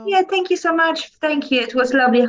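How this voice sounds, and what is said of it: Polish-accented English. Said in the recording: “With my Polish accent and sometimes twisted words.”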